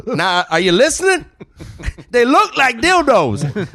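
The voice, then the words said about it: Put-on Black American voice. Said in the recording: “I did it a little black.”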